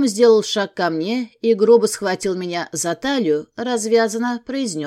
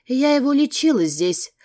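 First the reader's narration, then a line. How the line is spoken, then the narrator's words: Calm reply. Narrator (Russian): спокойным тоном ответила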